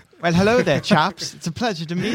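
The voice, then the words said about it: Put-on British accent. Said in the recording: “talking in a British accent”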